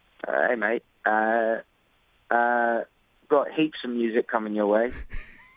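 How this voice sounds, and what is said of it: Weak put-on Australian accent. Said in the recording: “I, have been practicing my Australian accent ... It's not very good. Yeah, it's not very good.”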